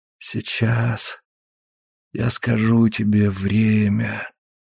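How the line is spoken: Very slow, sleepy. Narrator (Russian): произнес Септимус очень медленно, очень сонно

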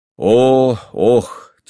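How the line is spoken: Heavy sigh. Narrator (Russian): тяжело вздохнул он

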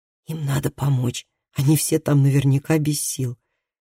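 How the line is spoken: Quiet suggestion. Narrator (Russian): предположил Калеб тихим голосом

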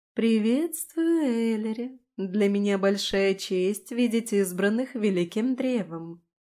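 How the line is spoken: Sing-song female voice. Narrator (Russian): нараспев произнесла она

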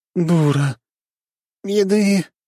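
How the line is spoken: Hoarse croak. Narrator (Russian): вновь прохрипел кто-то

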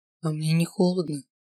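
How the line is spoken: Quiet, menacing. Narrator (Russian): произнес тихо, так что у меня от этого тона внутренности скрутились в тугой узел

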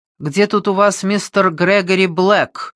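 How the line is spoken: Loud question. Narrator (Russian): громко спросил

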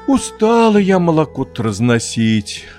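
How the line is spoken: Weary sigh. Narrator (Russian): вздохнула баба Рит

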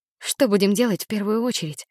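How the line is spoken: Whisper. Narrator (Russian): прошептала я

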